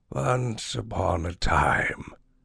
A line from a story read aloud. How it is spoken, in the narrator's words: the old woman growled